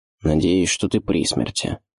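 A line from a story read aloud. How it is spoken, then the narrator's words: Displeased wizard grumbling. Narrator (Russian): недовольно пробурчал волшебник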